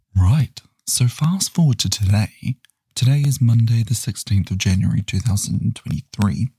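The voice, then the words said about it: Quiet, hushed speaking voice. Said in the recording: “My voice sounds a little bit funny today ... I'm trying to be quiet so that I'm not making too much noise”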